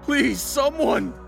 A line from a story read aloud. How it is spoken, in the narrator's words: I shouted at the top of my lungs